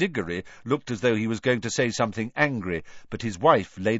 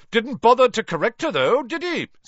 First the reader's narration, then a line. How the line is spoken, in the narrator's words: said Amos Diggory, loudly enough for Harry to hear